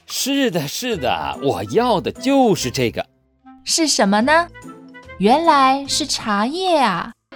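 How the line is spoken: Laughing. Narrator (Chinese): 苏东坡……笑着说

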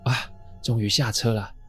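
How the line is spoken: Old woman panting. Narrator (Chinese): 阿嬷一边喘气一边说

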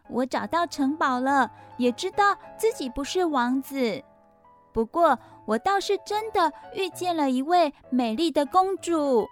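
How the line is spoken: Smiling. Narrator (Chinese): 阿伦微笑着说

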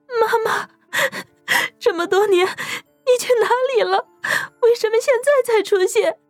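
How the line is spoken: Crying question. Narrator (Chinese): 苏瑶哭着问

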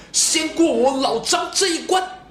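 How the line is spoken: Angry roar. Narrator (Chinese): 张飞一声怒吼

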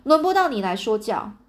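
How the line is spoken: Loud roar. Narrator (Chinese): 铁锈大吼一声说

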